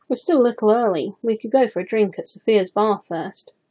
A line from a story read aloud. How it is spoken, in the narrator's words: suggested, trying to keep his tone casual